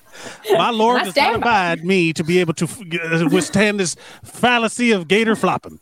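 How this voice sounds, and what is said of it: Put-on Gainesville accent. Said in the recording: “I don't know why I gave her that accent, because I think everyone from Gainesville sounds like this.”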